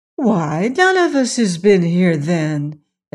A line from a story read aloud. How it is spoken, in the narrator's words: exclaimed the little girl